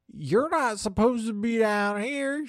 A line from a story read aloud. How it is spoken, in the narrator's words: she whines